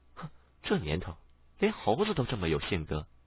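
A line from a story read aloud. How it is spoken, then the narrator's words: Low wry sighing grumble. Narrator (Chinese): 小白苦笑，摇头叹息，嘴里低声的咕哝道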